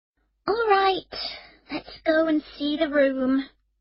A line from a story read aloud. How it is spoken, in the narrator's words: Emma said wearily